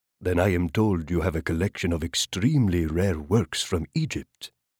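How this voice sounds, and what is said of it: Rich voice with Arabic accent. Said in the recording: “his voice rich with the lilt of an Arabic accent”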